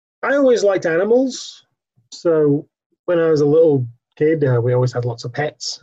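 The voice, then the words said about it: English accent. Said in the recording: “I grew up in England, if my accent doesn't give that away... I'm from the north of England”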